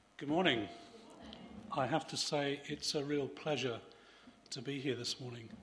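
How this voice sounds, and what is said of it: Voice not fully recovered. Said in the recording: “You may hear my voice is not fully recovered”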